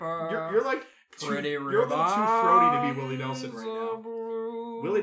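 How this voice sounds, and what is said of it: Usual voice. Nothing is said of it.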